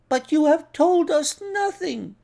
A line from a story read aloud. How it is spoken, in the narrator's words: cried the doctor